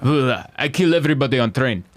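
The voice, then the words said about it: Cold put-on Russian accent. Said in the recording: “a Russian accent ... Like a cold Russian.”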